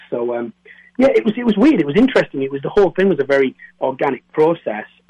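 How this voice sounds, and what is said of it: Northern English Geordie accent, toned down. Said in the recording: “you sound like a northerner ... I'm just near Newcastle ... I say you're a Geordie ... This is my posh voice”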